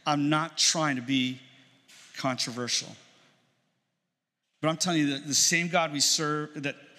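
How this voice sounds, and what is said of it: Emotional voice. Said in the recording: “I'm getting emotional”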